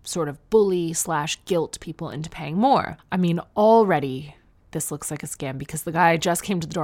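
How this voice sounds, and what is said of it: Usual voice. Nothing is said of it.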